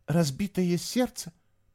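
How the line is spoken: Whispered. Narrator (Russian): прошептал он

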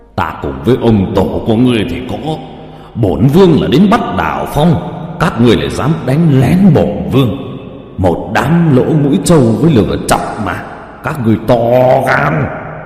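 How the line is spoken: Angry yelling while fleeing. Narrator (Vietnamese): Tam pháp vương vừa chạy trốn vừa giận dữ la hét

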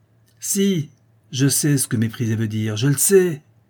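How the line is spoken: Child shouting, stamping angrily. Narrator (French): cria l'enfant en frappant du pied

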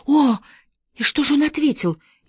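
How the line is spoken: Frightened question. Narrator (Russian): испуганно спросила Мэри

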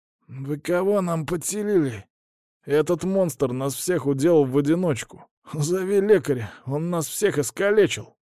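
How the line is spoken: Hoarse man's voice. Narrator (Russian): сиплым голосом проговорил мужик

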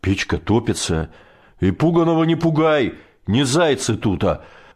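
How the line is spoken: Growling. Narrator (Russian): Рыкнул Высотин

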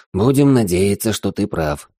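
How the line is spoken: Sighing. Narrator (Russian): вздохнул я

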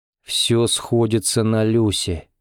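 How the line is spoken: Gloomy. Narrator (Russian): мрачно подытожил он

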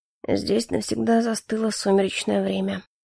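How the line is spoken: Quiet. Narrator (Russian): негромко заговорил Калипсо

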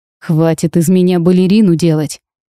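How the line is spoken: Furious growl. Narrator (Russian): В ярости прорычал я

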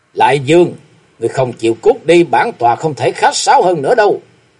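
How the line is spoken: Cold. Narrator (Vietnamese): Võ Lâm Đế Quân lạnh lùng nói

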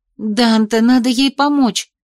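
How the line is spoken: Pleading. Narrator (Russian): взмолилась я

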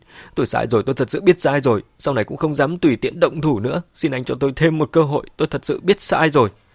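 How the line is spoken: Terrified tearful pleading. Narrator (Vietnamese): Mẹ Quân mặt mày rất hoảng sợ, quỳ ở dưới chân Mã Tuân khóc lóc van xin

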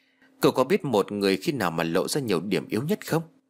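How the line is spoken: Smiling. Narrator (Vietnamese): Cô đồng linh mỉm cười

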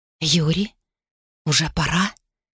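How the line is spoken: Hoarse question. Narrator (Russian): сипло спросила она

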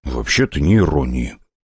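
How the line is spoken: Barely audible mutter. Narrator (Russian): буркнул я, да так, чтобы этого никто не расслышал

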